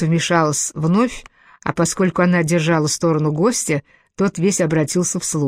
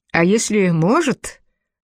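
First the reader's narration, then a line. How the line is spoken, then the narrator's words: Snort. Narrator (Russian): хмыкнул Байт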